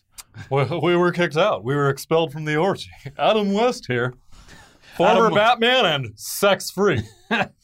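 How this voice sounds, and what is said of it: Imitates another person's voice. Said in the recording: “you'd do the voice.”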